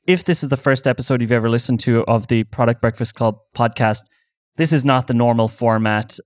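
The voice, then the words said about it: Irish accent. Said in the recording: “that's the Irish accent coming in”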